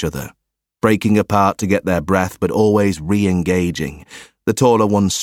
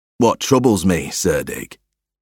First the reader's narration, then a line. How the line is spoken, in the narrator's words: the taller of the two sneered